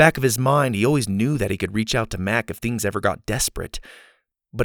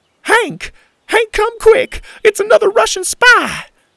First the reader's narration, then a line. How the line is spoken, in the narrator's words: cried the little old lady